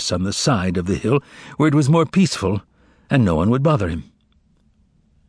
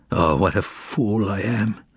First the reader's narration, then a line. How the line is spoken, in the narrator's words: he mumbled, in a state of mental anguish